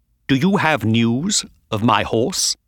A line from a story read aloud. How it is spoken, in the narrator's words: said coldly